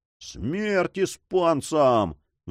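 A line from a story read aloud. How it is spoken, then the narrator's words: Crew roaring. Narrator (Russian): взревела команда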